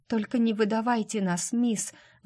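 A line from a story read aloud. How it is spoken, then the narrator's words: Pleading. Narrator (Russian): взмолилась Эдди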